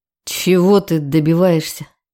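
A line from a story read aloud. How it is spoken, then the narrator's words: Through gritted teeth. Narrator (Russian): Процедил сквозь зубы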